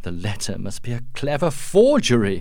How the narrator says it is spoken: exclaimed Duncan

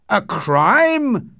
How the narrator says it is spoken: shouted Utterson, now frightened too

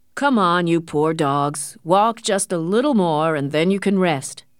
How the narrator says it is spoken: said the men

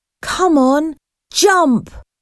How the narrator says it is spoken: Lucy shouted

